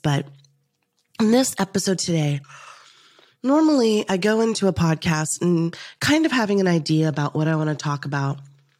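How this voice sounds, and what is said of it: Scratchy, weakened voice. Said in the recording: “my voice sounds a little bit scratchy, or a little bit not at my normal level, because I've been battling a little bit of I don't know what it is, lung infection”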